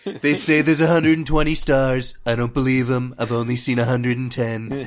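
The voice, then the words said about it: Imitates another person's voice. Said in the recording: “That's just Alec Baldwin's Trump now ... That's my impression.”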